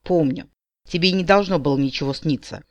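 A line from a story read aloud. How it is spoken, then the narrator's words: Snort. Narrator (Russian): хмыкнул Нол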